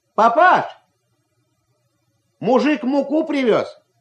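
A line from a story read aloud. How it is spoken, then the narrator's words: Shout. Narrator (Russian): крикнул Ваня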